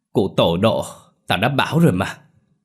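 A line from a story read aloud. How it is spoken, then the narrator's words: Triumphant yell. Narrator (Vietnamese): thắng thì gào lên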